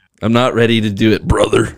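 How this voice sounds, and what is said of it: Imitates another person's voice. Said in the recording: “my Hulk impression ... is world renowned for his terrible impressions ... That actually wasn't bad compared to his other ones.”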